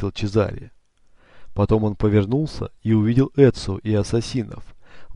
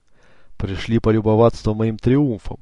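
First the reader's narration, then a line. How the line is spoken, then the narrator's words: Shouted. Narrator (Russian): крикнул он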